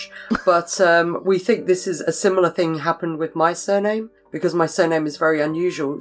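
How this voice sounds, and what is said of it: English accent. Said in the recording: “as you can tell by my accent, I am English”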